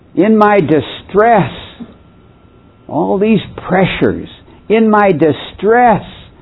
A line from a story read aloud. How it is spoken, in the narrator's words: I cried out